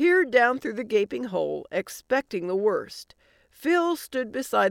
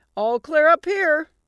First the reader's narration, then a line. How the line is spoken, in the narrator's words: yelled